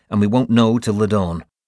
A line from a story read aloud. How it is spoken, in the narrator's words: I said curtly